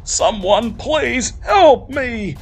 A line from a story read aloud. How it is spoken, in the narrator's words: screams a male voice